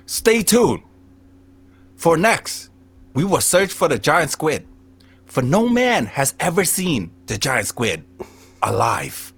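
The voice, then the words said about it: Imitated British Australian narrator accent. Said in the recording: “This guy got a British Australian accent.”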